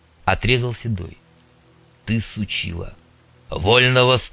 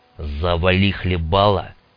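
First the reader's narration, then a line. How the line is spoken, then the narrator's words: Sharp, curt. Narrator (Russian): резко бросил Старлей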